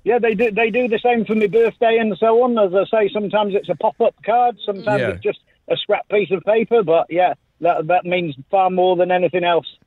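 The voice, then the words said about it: British accent. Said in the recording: “I can detect your accent there from the UK”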